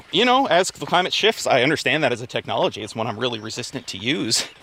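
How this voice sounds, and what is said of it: Out of breath. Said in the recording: “getting out of breath for a second... We are going up a big hill”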